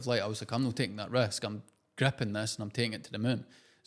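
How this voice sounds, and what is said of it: Strong regional accent. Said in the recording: “it's just my accent ... I started over-exaggerating my accent”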